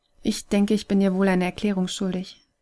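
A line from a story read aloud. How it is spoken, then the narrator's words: Starting to explain. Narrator (German): setzte Kai an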